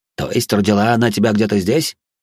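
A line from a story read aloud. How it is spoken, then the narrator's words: Amused snort. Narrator (Russian): хмыкнул Канс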